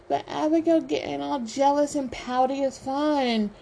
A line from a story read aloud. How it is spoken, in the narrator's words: Chase whines